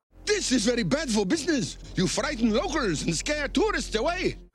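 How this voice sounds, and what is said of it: Stereotyped foreign accent. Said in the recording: “it's essentially the same accent... Not all foreign people sound alike... offensive stereotypes”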